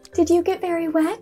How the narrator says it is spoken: she asked anxiously

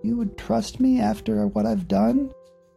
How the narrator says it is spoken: asked, his voice small

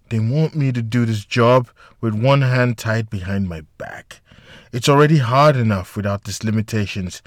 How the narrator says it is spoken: she muttered under her breath

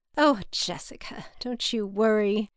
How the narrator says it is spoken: she laughed

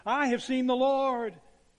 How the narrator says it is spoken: the father shouted

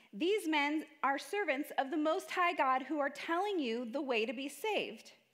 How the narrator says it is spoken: shouting

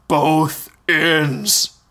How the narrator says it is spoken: The giant looked at Hogarth and repeated in his booming voice

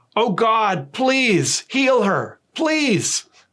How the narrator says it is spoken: he cried out

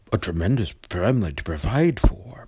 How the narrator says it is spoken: muttered Scrooge

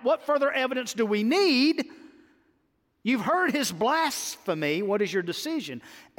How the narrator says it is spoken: the high priest tore his robes and cried out

